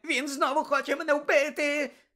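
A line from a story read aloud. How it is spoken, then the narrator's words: Sudden shriek. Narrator (Ukrainian): Несподівано заверещав Петтігрю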